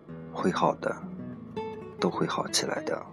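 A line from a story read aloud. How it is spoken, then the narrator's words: Soft voice. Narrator (Chinese): 轻声说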